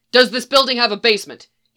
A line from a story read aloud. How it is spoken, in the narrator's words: yells cowering behind the counter